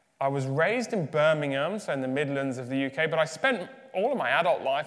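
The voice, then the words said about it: English accent. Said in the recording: “given my English accent”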